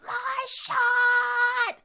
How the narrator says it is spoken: he'll scream at the top of his lungs

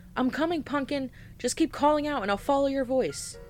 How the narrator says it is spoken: I yelled out as I ran

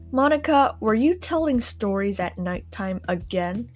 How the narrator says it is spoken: bellowed

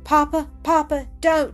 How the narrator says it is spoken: she cried, bursting into sobs and tears

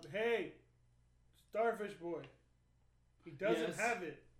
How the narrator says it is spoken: I yell out

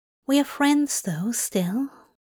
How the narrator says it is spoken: He asked quietly

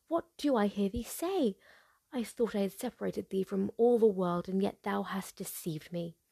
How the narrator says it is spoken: cried the enchantress

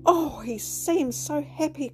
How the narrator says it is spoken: cried Fay

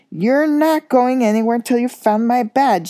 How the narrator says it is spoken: yelled Percy

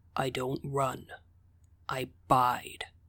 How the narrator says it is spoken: said, his voice low

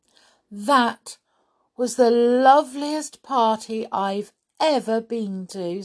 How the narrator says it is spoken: said Molly happily

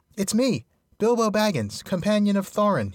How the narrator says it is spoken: he cried, hurriedly

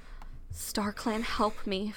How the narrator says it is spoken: Fireheart whispered

